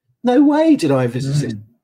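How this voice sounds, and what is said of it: Higher-pitched, sing-song voice. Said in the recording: “my voice went a bit higher... Other singing voices are available”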